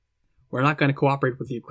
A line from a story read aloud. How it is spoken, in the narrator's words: Cradle said